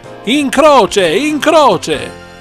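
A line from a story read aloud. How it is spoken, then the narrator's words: Crowd shouting louder. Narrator (Italian): gridavano sempre più forte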